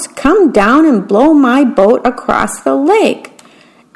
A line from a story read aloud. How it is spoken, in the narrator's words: shouted the mouse